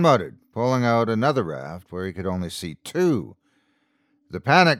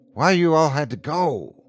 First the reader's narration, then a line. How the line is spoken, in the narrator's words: sighed